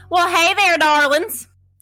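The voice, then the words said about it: Put-on Southern accent. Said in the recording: “I just can't take you seriously with your southern accent. ... It's so good, though.”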